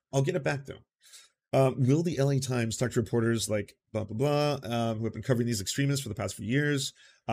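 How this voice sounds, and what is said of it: Hoarse, strained voice. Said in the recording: “my voice is still a little shot from the weekend”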